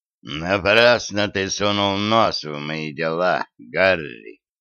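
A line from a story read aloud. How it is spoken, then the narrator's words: Angry hiss. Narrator (Russian): Со злостью прошипел он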